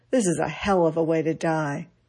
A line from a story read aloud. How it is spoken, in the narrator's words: George Patton grumbled